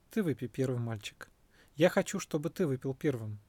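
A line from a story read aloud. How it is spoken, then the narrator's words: Soft voice. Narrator (Russian): Сиддхартха ответил мягким голосом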